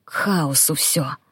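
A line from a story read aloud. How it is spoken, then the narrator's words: Muttering. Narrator (Russian): пробормотал Публий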